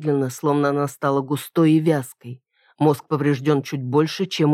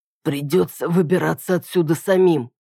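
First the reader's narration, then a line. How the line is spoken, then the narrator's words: Hoarse rasp. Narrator (Russian): прохрипел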